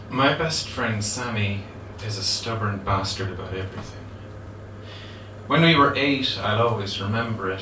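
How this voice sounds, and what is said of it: Limerick Irish accent. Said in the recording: “I'm speaking in one particular kind of Limerick accent.”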